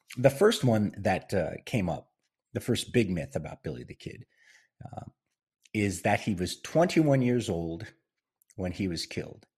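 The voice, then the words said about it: Voice affected by a cold. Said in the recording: “I'm still kind of struggling with a cold or whatever the after effects of this damn COVID is. So excuse my voice.”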